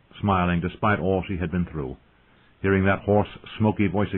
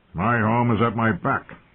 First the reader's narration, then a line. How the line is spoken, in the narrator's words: he said gruffly